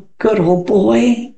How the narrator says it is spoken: said Alan sadly

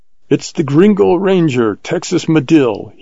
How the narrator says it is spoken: he shouted in Spanish

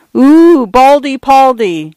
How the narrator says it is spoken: some idiot girl had exclaimed

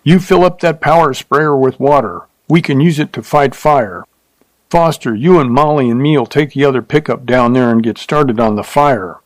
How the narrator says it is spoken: shouted

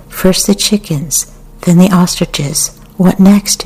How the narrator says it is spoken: she said

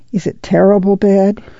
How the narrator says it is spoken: she asked a little timidly

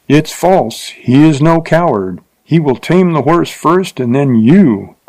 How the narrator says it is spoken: cried a voice so close

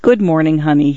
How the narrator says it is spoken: he said

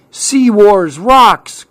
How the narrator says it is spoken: cried Clark

